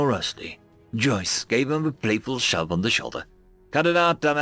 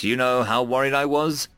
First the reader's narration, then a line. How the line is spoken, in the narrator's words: she said with a laugh